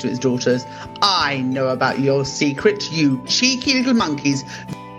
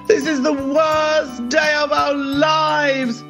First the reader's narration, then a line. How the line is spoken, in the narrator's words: cried the princesses